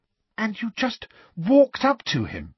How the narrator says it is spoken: said Hermione breathlessly

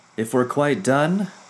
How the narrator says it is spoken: Captain Swift called out from the helm

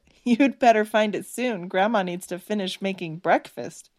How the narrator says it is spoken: Stephanie couldn't help but chuckle as she said

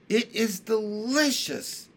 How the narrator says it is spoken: cried Jessie

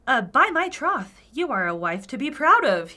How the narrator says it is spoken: he cried

